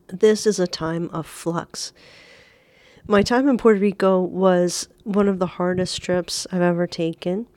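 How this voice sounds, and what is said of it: Sick-sounding voice. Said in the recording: “Pardon my voice today. I am recovering from a cold, some kind of flu”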